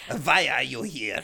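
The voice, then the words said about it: Very poor fake French accent. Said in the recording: “that was a dreadful French accent. That may be the worst French accent I've ever heard.”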